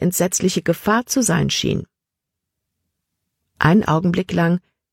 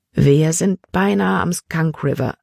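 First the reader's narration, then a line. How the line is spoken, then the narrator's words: Plain. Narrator (German): sagte er schließlich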